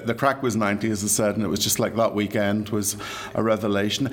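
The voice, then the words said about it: Irish accent. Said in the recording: “I'm sure you can tell by my accent, I'm from these shores”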